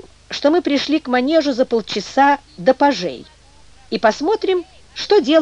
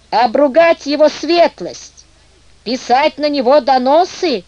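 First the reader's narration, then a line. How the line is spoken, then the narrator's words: Hoarse, vexed shouting, broken Russian. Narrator (Russian): кричал Гроснат ломаным русским языком и сиплым от досады голосом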